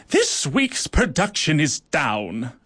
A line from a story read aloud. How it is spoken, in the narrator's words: she barked